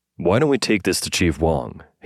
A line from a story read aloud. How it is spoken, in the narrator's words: he asked